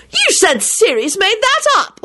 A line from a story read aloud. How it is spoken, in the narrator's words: Elizabeth shrieked delightedly